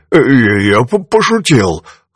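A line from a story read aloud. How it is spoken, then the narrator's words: Choked wheezing. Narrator (Russian): хрипел он, чувствуя, как его шею сминает стальная хватка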